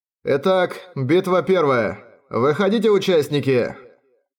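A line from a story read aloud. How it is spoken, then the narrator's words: Loud announcement by guards. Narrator (Russian): Громко объявили стражники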